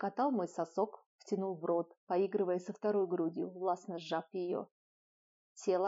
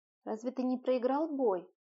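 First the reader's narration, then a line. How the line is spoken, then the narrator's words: Sleepy question. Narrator (Russian): Сонно спросила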